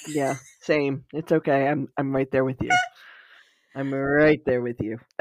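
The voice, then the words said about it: Congested, very low raspy voice. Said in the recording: “I'm still all congested and snotty and coughing and deep throat. ... We both have our sexy voices on. ... I can actually like feel the rumble in my chest from my voice being so low.”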